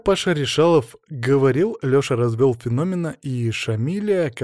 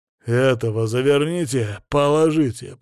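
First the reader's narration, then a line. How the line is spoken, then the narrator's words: Through gritted teeth. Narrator (Russian): процедил он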